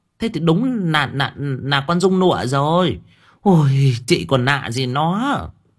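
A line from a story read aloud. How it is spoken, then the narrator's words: Stammering old woman. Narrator (Vietnamese): Bà lắp bắp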